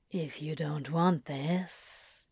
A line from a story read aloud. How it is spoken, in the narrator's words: Crowley says quietly